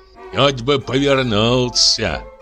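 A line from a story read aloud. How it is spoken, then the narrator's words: Grumbling. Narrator (Russian): ворчал слуга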